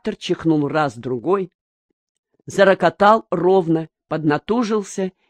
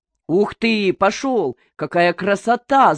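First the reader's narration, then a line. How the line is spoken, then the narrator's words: Excited shout. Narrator (Russian): закричал Никифор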